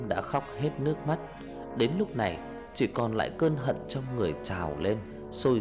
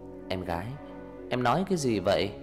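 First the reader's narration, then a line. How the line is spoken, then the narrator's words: Smiling. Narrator (Vietnamese): Tấm mỉm cười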